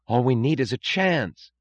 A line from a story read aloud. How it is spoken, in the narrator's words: cried Lawson